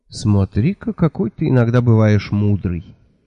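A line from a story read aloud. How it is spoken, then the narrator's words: Sad. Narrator (Russian): печально сказала Техи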